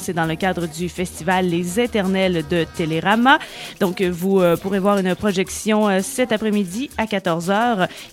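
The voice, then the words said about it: Sing-song Québécois French accent. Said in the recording (French): “Avec ton petit accent québécois. ... qui amène un petit peu de chantant”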